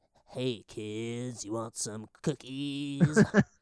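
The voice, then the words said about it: Imitates another person's voice. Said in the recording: “good Chris Kattan impression”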